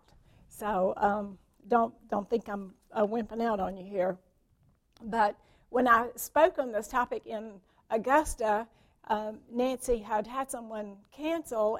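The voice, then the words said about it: Worn-out, strained voice. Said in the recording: “I do apologize for my voice. It sounds like I'm about on my last leg”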